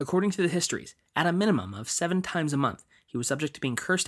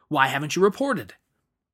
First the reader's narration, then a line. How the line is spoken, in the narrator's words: shouted with a belligerent